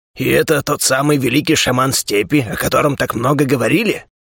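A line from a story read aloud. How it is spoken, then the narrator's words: Dismissive grumble. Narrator (Russian): Пренебрежительно буркнул Хрип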